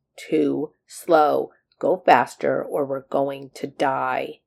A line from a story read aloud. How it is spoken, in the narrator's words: He growled through his teeth